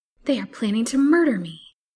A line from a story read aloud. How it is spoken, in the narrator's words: thought the wretched girl with a wildly beating heart